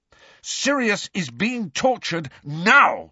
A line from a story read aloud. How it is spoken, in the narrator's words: shouted Harry